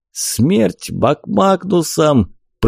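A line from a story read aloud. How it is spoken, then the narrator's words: Wheezed from the side. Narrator (Russian): просипел кто-то сбоку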